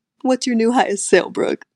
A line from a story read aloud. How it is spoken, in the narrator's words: He laughed and asked